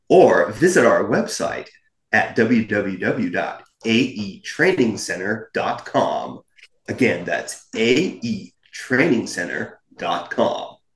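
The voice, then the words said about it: Smooth announcer-style radio voice. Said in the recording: “Like my radio voice?”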